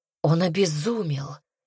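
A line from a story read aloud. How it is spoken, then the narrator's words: Barely breathed out. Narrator (Russian): еле выдохнула она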